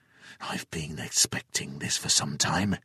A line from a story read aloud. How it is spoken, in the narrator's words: he whispered